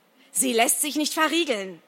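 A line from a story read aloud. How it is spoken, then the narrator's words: Shouting. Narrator (German): schreit er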